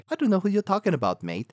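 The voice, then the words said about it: Poor put-on English accent. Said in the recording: “That's a horrible English accent. I know. I'm not good at imitations.”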